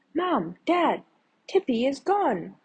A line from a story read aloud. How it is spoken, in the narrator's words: she cried